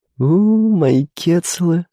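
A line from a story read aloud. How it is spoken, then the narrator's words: Laughing. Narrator (Russian): засмеялась Лида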